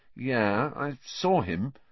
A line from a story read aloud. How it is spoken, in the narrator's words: said Harry, slowly